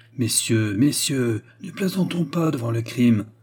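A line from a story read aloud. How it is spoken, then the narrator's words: Pastor moaning. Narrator (French): gémit le pasteur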